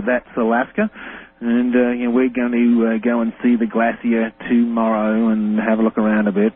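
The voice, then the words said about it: Australian accent. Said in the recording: “as you might be able to discern by his accent, if you've never heard him, is Australian”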